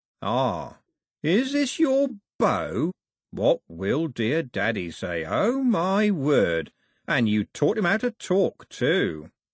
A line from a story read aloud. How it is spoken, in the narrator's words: Cox said, slowly and carefully